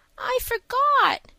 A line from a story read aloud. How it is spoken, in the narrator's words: whimpered Davy